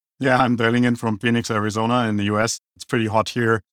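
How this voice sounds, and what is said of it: German accent. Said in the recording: “we sound like we're dialing in from Germany ... actually rock the German accent”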